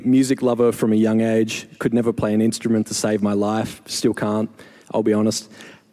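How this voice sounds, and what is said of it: Australian accent. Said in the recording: “When I was 18 in Australia, in case you couldn't pick the accent”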